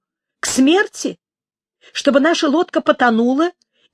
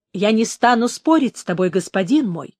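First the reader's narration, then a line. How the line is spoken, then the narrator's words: Forced icy tone. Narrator (Russian): старался говорить ледяным тоном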